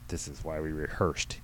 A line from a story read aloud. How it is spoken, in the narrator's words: he muttered under his breath